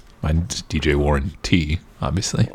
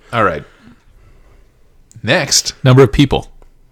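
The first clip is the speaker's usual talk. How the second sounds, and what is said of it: Radio announcer voice. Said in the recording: “when you talk like that, it makes you sound like a radio announcer.”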